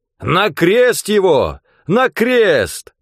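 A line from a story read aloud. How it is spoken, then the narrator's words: Crowd shouting. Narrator (Russian): старшие священники и стража закричали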